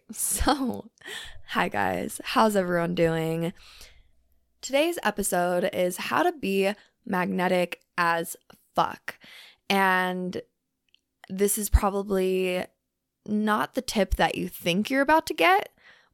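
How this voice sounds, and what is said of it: Rough, under-the-weather sounding voice. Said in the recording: “I am so sorry if my voice sounds horrible today ... It's just my voice, my throat chakra, I feel like is like going through some shit ... please excuse my voice. Please excuse if I sound like a little under the weather ... I just do not sound great”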